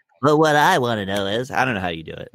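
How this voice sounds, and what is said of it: Imitates another person's voice. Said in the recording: “My impersonation is of you.”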